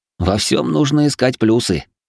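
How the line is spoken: Snort. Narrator (Russian): хмыкнул

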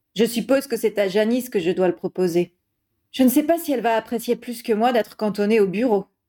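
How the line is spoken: Sigh. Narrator (French): soupira Harry

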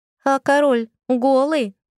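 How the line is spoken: Boy shouting from crowd. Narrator (Russian): крикнул из толпы какой-то мальчуган

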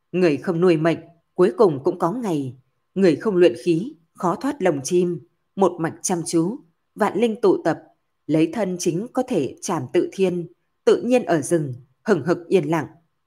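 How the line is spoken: Slow whisper. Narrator (Vietnamese): Lâm Phàm chậm rãi thì thầm

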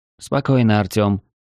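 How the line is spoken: Dry tone. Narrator (Russian): сухим тоном произнесла она

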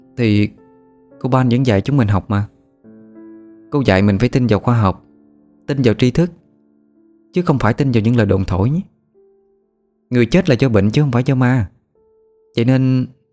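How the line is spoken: Sighing. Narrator (Vietnamese): tiếng nó thở dài

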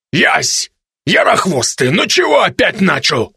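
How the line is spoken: Growled. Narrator (Russian): Рыкнул на него высокий Красналь

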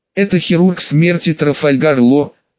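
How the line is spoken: Doomed exhale, loud gulp. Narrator (Russian): обреченно выдохнул парень, шумно сглатывая

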